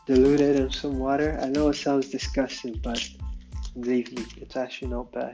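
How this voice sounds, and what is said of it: Noticeable English accent. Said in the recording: “Still out my English accent... how audible my English accent is”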